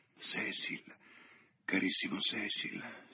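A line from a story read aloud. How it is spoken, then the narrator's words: Whisper. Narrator (Italian): sussurrò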